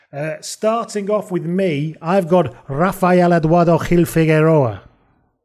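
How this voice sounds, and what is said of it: Put-on accent for a name. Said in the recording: “let me know how that accent was. I gave it my best shot.”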